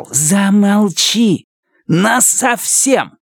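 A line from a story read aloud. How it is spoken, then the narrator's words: Hissing. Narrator (Russian): прошипел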